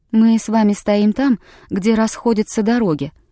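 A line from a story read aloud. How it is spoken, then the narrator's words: Calm, young woman. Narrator (Russian): спокойно произнесла девушка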